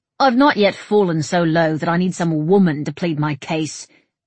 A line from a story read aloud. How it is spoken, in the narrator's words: Somerled snapped